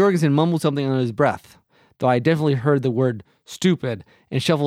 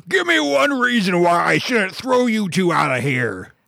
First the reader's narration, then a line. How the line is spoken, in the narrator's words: he was already shouting